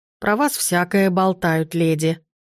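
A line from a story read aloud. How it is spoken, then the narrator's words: Grumbling woman. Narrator (Russian): проворчала женщина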